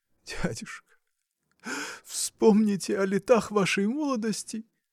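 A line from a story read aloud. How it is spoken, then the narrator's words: Sobbing. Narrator (Russian): Всхлипывая, говорил Александр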